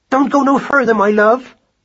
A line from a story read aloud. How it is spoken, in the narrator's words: cried Madeline